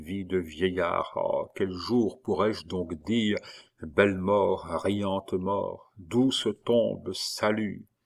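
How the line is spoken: Murmured. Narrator (French): murmura-t-il

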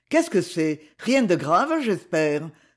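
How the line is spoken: Anxious exclamation. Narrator (French): s'écria-t-il avec inquiétude

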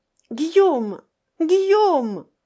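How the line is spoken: Pleading cry. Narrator (French): cria Madeleine d'une voix suppliante

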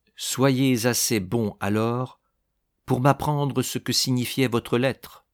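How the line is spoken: Less irritated tone. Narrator (French): dit-il d'un ton moins irrité

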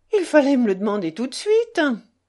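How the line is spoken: Laughing. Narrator (French): dit Mitya en riant

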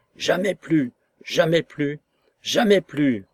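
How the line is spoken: Shouting. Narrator (French): criai-je à l'apparition

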